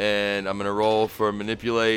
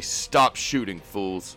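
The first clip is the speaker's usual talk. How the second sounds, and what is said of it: Very commanding voice. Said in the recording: “in a very commanding voice”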